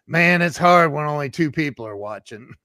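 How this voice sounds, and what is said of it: Imitates another person's voice. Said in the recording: “let me try to do my Grant impression.”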